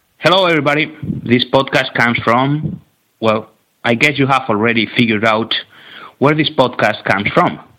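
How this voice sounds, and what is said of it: Spanish accent in English. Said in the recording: “Because of my accent... because of your accent as well... from Spain”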